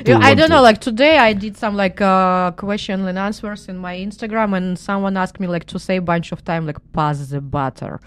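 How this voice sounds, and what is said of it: Russian accent. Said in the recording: “I love her Russian accent. It's fantastic. ... it's all the time I hear about my Russian accent”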